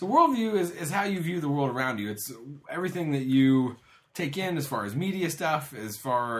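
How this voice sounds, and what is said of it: Usual voice. Nothing is said of it.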